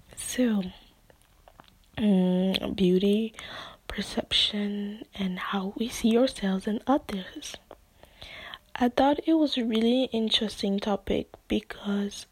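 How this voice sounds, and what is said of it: Non-native English accent. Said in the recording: “maybe you picked up on an accent, but yeah, English is not my first language ... my accent can be rather inconsistent”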